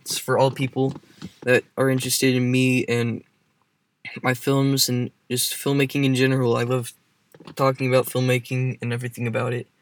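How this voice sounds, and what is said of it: Shaky, nervous voice. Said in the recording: “my voice is getting pretty shaky because I'm kind of nervous”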